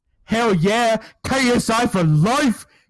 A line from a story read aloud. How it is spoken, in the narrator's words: Samuel shouted into his microphone